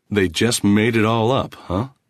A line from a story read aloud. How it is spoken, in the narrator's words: He made his voice sound harsh, unbelieving